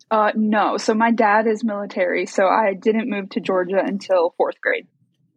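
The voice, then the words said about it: Georgia Southern accent. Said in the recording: “The accent is very convincing that you're from Georgia.”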